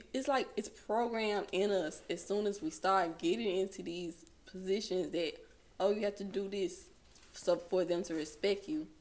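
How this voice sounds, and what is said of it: Mississippi Delta Southern accent. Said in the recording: “my Mississippi Delta accent. Cause supposedly I have one. ... You do, baby. You do.”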